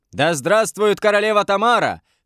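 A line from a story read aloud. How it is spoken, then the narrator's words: Shout at full strength. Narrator (Russian): крикнул что есть мочи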